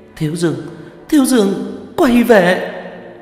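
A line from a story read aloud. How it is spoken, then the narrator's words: Shouting mid-fight. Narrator (Vietnamese): Nhuế Lãnh Ngọc vừa kháng cự đòn tấn công của phù quỷ, vừa hét lên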